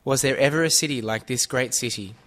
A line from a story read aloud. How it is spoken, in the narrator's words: they will exclaim